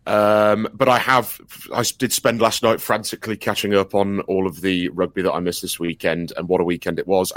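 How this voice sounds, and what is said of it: Voice lower than usual. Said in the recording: “as you can all probably hear, my voice is a semitone lower than what it usually is”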